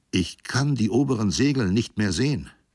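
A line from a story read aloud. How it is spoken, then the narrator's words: Unsteady voice. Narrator (German): erklärte Gambrill mit unsicherer Stimme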